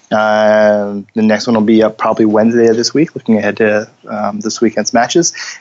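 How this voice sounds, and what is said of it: Scratchy, lower-pitched voice. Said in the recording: “My voice is usually a little more elevated. It's very scratchy.”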